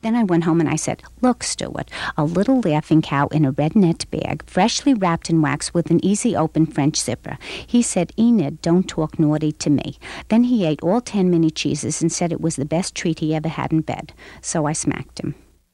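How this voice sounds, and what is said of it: Woman with thick New York accent. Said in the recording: “a unique character she called Enid, who had a thick New York accent”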